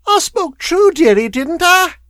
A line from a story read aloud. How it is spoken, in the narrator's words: whined the woman